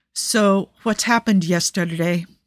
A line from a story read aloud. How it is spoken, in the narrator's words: he asks, keeping his voice level